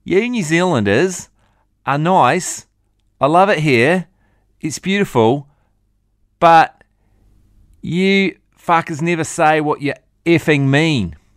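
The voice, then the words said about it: Bad imitation Australian accent. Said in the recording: “Terrible Australian accent.”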